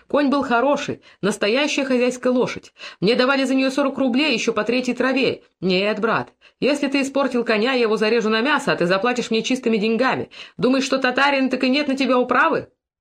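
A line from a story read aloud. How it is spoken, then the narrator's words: Deliberately loud heated shouting. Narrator (Russian): Макар горячился и кричал нарочно, чтобы собрать вокруг себя побольше народу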